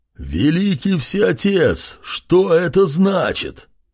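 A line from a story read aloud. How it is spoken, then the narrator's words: Creaky giant voice. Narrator (Russian): проскрипел колосс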